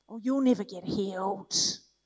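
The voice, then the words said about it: Pretend demon voice. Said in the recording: “That's my demon voice. I'm not actually demon possessed. I'm pretending.”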